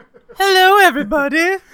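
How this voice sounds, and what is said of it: Southern belle voice, Muppet-like. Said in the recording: “my Jamie Lee Curtis impersonation... That sounds nothing like her... Why does she sound like she is Southern Belle, like sitting on the porch drinking some sweet tea?... Sounds like a Muppet.”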